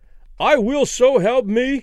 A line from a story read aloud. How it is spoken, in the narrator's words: Danny cried with abrupt conviction